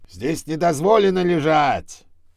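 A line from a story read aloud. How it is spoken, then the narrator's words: Yelling. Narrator (Russian): заорал на них сторож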